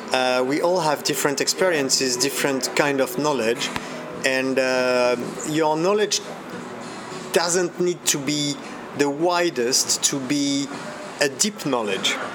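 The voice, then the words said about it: Non-native English with slight British tinge. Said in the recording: “I'm hearing an accent in your English ... sounds like a bit of UK there ... some UK”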